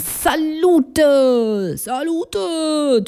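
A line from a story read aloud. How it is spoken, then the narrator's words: Tipsy call across room. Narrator (German): Nach einer 3/4 Flasche köstlichen Rotweins, rief ich in den Gastraum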